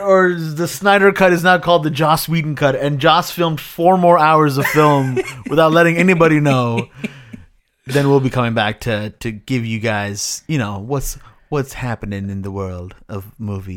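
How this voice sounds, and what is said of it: Seductive, put-on speaking voice. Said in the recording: “Did you did an accent for that? ... I'm talking seductively to the oh, audience.”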